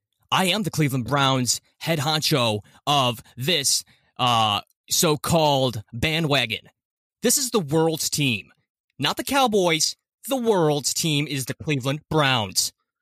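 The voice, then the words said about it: Jim Rome impression. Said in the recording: “tried to do a Jim Rome impersonation, so excuse me for the terribleness of it ... That's not bad, man. ... A lot better than I thought it was going to be.”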